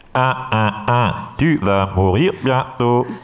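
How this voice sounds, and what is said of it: Imitating an Amiga 500 computer voice. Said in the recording (French): “Très très belle imitation d'Amiga”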